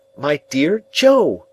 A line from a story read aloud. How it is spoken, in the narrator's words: cried in desperation